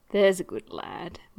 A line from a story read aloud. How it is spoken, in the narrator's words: Mike murmurs